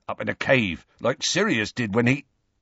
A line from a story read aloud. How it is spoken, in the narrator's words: Hagrid broke off, cleared his throat gruffly